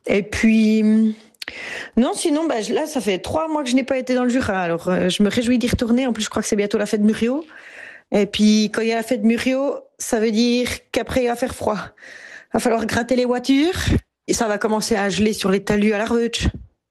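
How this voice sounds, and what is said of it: Swiss French Jura regional accent. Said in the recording (French): “J'ai grandi dans les Franches-Montagnes, au Sérin même, et c'est dans le Jura. La première fois que j'ai rencontré mon accent, c'est quand on s'en est moqué ... ris de mon accent”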